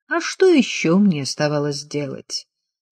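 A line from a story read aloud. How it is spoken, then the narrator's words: Dry question. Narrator (Russian): сухо спросил он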